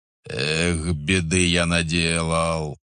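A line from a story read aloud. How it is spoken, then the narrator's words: Groaning. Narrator (Russian): простонал Савелий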